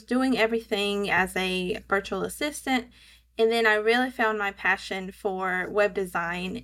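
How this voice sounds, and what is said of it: Southern American accent. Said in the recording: “I live in Georgia, so hence my southern accent.”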